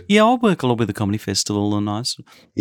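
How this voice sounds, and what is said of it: Put-on middle-class Melbourne accent. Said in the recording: “quite middle class Melbourne accent when you talk like this.”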